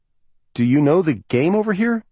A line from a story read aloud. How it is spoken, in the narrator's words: Sam asked nervously